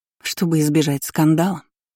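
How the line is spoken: Angry. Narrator (Russian): уточнила зло

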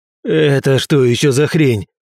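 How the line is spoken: Growl. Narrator (Russian): прорычал Роман

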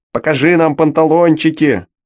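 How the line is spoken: Shouting parrot. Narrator (Russian): Даже попугай крикнул

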